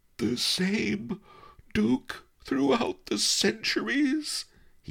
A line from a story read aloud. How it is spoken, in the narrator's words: he gasped when he had recovered